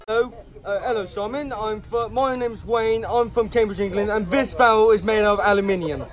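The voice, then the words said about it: English accent. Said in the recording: “anybody with an English accent”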